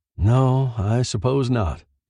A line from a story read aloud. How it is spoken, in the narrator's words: sighed